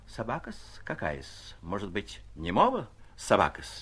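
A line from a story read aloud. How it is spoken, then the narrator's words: Unsteady voice. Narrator (Russian): произнес он не совсем твердым голосом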